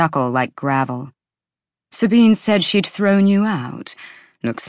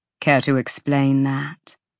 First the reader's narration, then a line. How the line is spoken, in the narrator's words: Bryce sighed